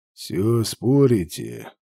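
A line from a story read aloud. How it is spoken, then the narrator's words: Tired, listless question. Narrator (Russian): усталым вялым голосом поинтересовался он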